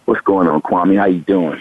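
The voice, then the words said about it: Deliberately deepened sexy voice. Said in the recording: “sexy voice ... You ain't got to deepen your voice.”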